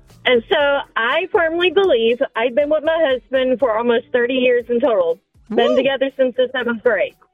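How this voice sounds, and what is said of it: Texan accent. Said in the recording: “with an accent... Is that Southside? Is that Cudahy? ... From Orange, Texas”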